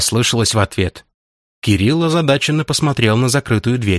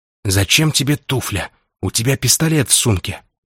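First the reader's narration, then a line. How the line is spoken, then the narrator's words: Puzzled whisper. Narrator (Russian): Недоумевающе прошептал Кирилл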